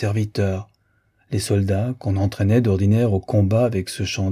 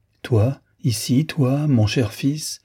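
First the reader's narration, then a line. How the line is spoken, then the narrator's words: Wounded man crying out. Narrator (French): s'écrie le blessé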